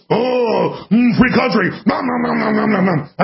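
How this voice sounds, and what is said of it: Cookie Monster voice. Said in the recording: “I sounded like Cookie Monster. ... the globalists are like Cookie Monster ... when I do Cookie Monster”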